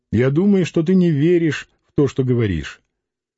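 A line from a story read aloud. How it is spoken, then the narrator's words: Very calm reply. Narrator (Russian): Лидия ответила очень спокойно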